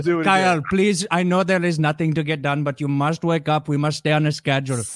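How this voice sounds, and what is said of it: Put-on Indian accent. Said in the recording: “I am part of the Indian team ... we go crazy with that accent.”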